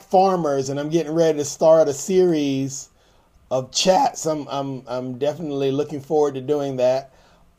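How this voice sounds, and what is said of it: Strained voice from yelling. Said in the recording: “my voice is so bad, because I've been yelling in excitement for so long”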